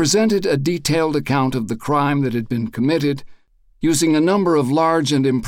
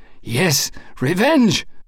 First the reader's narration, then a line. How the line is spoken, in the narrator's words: gasped Triunfo Anelina